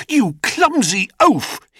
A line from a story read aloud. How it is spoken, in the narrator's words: he cried